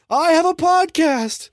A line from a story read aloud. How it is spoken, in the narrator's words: I was screaming